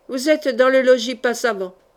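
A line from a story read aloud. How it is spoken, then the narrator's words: Harsh authoritative. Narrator (French): dit Saïtano d'une voix de rude autorité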